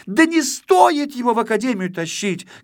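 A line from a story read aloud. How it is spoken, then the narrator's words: Little girl shouting. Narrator (Russian): кричала малышка-модница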